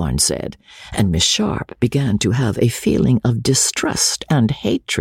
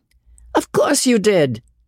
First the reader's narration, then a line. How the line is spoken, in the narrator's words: cried Osborne, still laughing